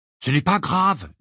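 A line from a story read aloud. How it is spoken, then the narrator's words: Firm, decided voice. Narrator (French): dit Ginny d'une voix décidée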